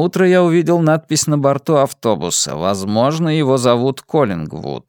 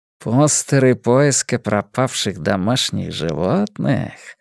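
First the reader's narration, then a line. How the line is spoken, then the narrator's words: Purring. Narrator (Russian): промурлыкал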